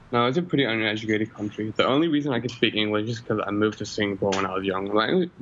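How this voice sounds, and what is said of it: Fluent English, somewhat American-sounding accent. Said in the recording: “I get the occasional American because of my accent. ... I would not have thought that you would have been from that region of the world if I heard your voice first.”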